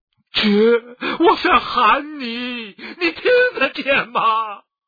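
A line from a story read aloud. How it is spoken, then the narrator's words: Desperate wailing cry. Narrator (Chinese): 这不仅是哀嚎与狂叫，这还是生命的呼声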